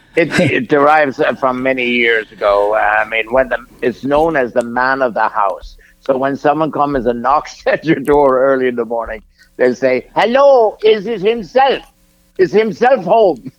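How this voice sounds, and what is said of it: Irish accent. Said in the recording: “an Irish thing ... I love the accent”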